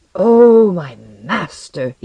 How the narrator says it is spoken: he cried

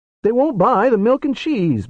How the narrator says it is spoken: Barry whined

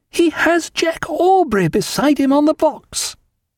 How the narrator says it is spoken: she cried

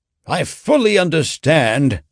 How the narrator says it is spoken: said McLaurin bitterly

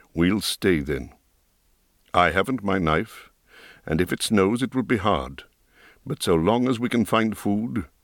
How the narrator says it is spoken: he said in his grave, quiet voice

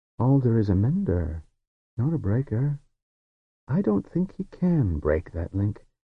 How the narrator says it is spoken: He said in his quiet, easy voice

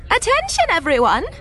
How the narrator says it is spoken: Varish called gaily, loud enough for the entire party to hear

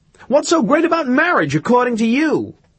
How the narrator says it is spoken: exasperated, Irene had shouted at her

